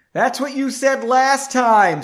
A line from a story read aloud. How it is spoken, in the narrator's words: yelled